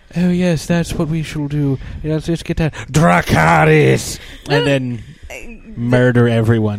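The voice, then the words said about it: Daenerys Targaryen character impression. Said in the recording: “great Daenerys Targaryen impression ... That was horrible.”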